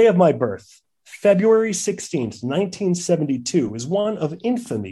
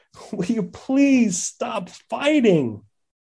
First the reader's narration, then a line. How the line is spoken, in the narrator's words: pleaded in desperation